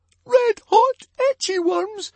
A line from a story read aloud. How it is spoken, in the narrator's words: squeaked Fishlegs